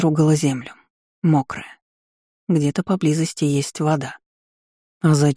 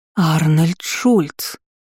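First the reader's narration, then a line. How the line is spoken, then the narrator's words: Exclaiming together. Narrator (Russian): Воскликнули мы одновременно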